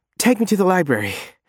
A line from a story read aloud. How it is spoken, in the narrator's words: gasp